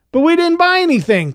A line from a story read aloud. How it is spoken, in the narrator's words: Clovis whined